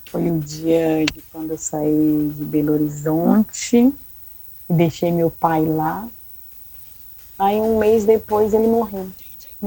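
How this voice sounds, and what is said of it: Slight Minas Gerais Brazilian accent. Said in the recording (Portuguese): “tem um sotaque mesmo mineiro, um pouquinho”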